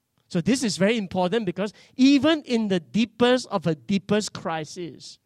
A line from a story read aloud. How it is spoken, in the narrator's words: she cried out to God